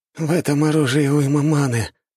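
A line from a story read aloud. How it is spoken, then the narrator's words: Wounded moan. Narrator (Russian): простонал раненый культиватор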